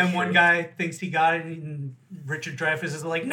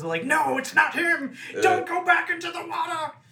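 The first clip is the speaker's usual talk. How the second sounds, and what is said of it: Richard Dreyfuss impression. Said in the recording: “That's my second accent. ... It's a killer Richard Dreyfuss. ... I heard a difference. ... Solid. It didn't sound anything like your southerner.”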